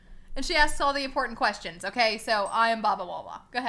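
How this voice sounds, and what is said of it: Usual voice. Nothing is said of it.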